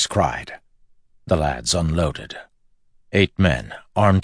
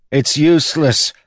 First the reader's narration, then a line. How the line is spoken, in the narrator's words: one of the lads cried